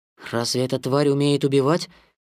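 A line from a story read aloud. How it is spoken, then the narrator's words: Whispered question. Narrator (Russian): спросил Маугли шепотом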